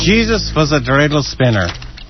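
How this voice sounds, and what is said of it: Put-on Yiddish accent. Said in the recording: “the Yiddish accent I'm trying to put into it”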